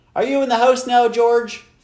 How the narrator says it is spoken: Flora's mother shouted from the kitchen

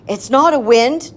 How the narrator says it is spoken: Nim shouted

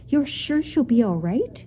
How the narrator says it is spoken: the boy asked anxiously

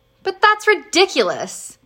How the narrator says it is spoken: Ben cried

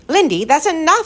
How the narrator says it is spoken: said sharply

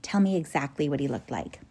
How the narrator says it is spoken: he said quietly

